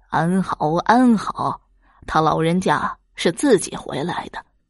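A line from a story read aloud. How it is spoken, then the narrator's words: Grinning. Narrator (Chinese): 王五又是咧嘴一笑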